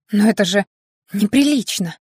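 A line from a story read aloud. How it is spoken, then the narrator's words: Half-nervous laughter. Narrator (Russian): Он не удержался от хохота наполовину нервного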